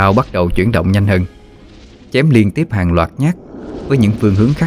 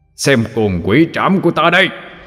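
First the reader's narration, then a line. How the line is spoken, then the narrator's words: Deep roar. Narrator (Vietnamese): trầm giọng mà gầm lên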